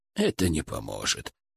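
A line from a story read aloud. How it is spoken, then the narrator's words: Quiet but firm. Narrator (Russian): тихо, но твердо сказал он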